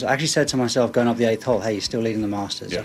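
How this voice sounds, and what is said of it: British accent. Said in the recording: “there is something about the British accent that just, it screams golf ... it's a very pleasing thing for me to listen to a Brit or anyone from over there talk a little golf”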